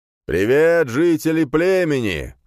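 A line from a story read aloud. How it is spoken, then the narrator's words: Shouted. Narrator (Russian): закричал Юриота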